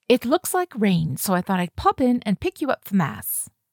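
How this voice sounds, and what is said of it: Chic London accent character voice. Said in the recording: “in her too-chic-for-this-place London accent.”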